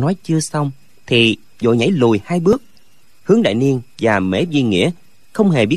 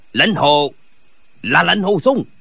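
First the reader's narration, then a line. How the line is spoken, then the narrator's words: Terrified shout. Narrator (Vietnamese): Gã vô cùng kinh hãi quát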